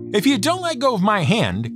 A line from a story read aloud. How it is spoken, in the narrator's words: Coyote yelled